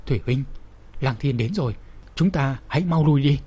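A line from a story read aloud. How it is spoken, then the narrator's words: Terrified trembling voice. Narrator (Vietnamese): Ngụy Thừa Bình đã sớm bị hù dọa đến môi xanh mặt trắng, cả người run rẩy nói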